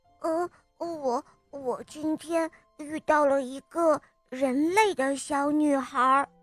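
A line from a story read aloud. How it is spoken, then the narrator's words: Hesitant, quiet voice. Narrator (Chinese): 他隔了好一会儿，才小声地说道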